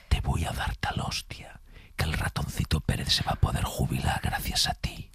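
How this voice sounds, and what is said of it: Menacing whisper. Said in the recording (Spanish): “susurrada ... que es en susurro, que da mucho más miedo cuando te lo dices susurrado”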